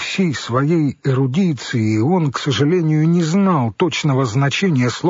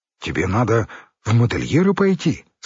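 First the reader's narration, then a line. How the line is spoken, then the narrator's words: Plain. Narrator (Russian): сказал Юра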